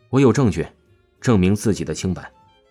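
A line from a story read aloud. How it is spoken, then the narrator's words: Calm, flat. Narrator (Chinese): 王峰淡淡说道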